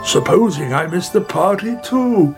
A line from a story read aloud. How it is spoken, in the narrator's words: he cried